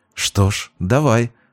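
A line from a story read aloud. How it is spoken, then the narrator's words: Conspiratorial whisper. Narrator (Russian): шепнула она заговорщически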